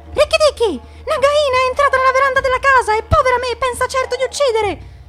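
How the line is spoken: Shout. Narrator (Italian): A quel grido

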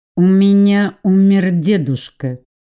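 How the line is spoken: Through clenched teeth, restraining. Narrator (Russian): проговорила я сквозь зубы, стараясь успокоиться

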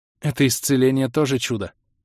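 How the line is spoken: Admiring sigh. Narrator (Russian): восхищенно вздохнула Юниза

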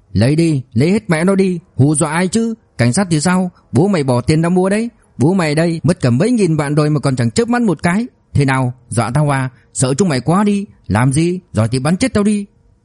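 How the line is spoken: Man yelling from upstairs. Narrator (Vietnamese): một giọng nam nhân gào lên từ trên lầu

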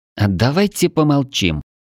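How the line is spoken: Through gritted teeth. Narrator (Russian): процедила Тушканчик

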